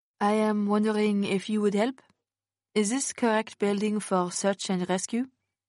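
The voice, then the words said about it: European accent. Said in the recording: “a European accent”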